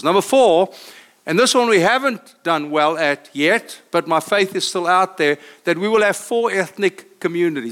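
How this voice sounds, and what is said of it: South African accent. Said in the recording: “I come from South Africa, as you hear by accent.”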